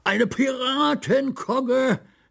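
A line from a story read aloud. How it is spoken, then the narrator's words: Called out. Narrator (German): rief Ludovic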